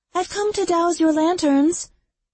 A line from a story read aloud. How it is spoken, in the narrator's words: Orchid called out in her lilting voice